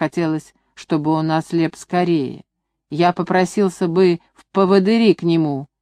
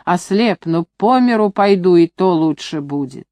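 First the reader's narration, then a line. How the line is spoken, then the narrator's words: Grumbling. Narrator (Russian): он ворчал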